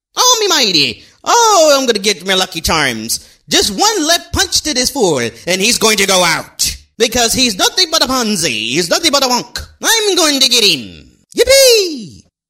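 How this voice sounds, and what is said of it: Exaggerated Irish leprechaun voice. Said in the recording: “wonderful Irish accent and you sound like a leprechaun, a drunk leprechaun at that”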